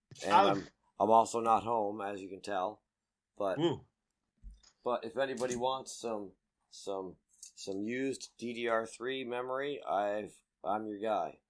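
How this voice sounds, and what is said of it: Voice not working properly, strained. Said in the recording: “my voice is not working properly today”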